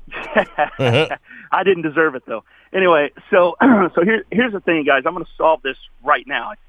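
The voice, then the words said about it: Hoarse, worn-out voice. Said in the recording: “As you can tell, my voice is taking a beating”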